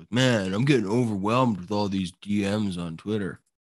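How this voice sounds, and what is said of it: Good impression of co-host's voice. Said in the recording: “That's actually a really good impression. ... I got the voice and everything.”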